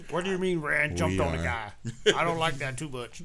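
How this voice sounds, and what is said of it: Imitates another person's voice. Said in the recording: “my Teak Hall impression”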